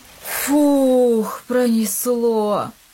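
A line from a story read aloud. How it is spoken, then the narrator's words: Relieved exhale. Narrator (Russian): выдохнул Илья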